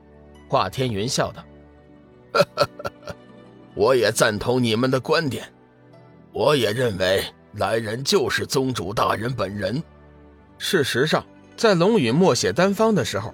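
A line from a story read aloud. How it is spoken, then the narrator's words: Old man, slight smile. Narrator (Chinese): 面带凶相的老者微微笑道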